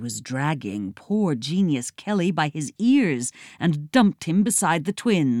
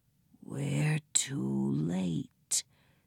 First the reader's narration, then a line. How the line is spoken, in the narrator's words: the pig whispered